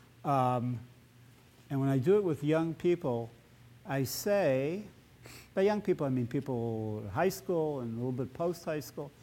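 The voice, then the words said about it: Strong Chicago accent. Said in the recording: “a person with a profound Chicago Gaulish accent”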